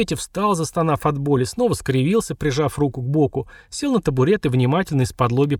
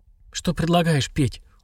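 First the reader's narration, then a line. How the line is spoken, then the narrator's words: Tired question. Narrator (Russian): устало спросила Мария Федоровна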